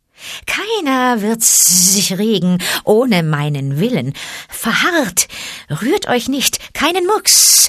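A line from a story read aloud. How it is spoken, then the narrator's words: Hissing. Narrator (German): zischte Ka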